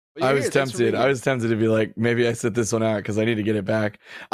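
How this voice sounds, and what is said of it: Hoarse, worn-out voice. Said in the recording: “That's about where my voice is at ... Wow, yeah. You're not kidding. ... my voice is shot ... just screaming into each other's ears”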